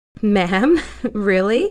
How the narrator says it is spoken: She said, still giggling

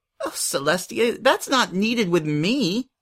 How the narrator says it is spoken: Pinkie laughed

